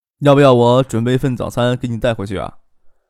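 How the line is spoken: Said chuckling. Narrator (Chinese): 张克嘿嘿一笑，说道

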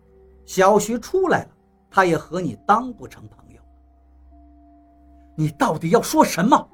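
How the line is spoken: Plain. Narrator (Chinese): 王八问道

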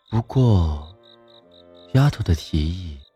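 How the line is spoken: Flat, sighing. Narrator (Chinese): 何谦语气淡淡的，像是叹息一样的说道

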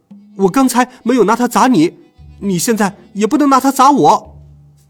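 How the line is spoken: Hurried loud shout. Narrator (Chinese): 我连忙大叫

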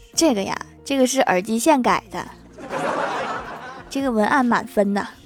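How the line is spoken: Laughing. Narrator (Chinese): 金角大王笑道

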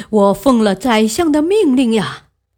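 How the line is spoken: Laughing. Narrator (Chinese): 汉魃笑道

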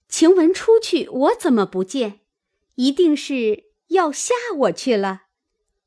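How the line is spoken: Laughing. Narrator (Chinese): 又笑道

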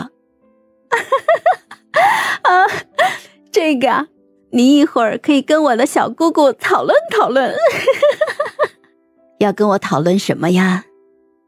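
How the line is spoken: Gentle, smiling, young woman. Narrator (Chinese): 一个温婉含笑的女生插了进来

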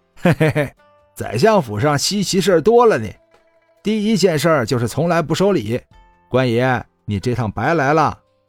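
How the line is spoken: Laughing. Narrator (Chinese): 那几个闲汉笑道

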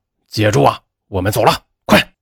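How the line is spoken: Roaring. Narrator (Chinese): 彪子吼道

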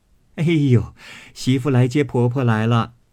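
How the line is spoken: Laughing. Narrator (Chinese): 凤姐笑道

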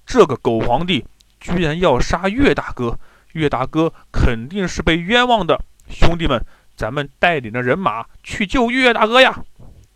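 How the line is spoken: Angry. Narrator (Chinese): 刘高怒气冲冲地说

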